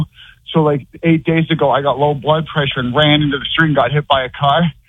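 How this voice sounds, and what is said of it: Sounds out of breath. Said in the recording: “Why do you sound like you're out of breath?”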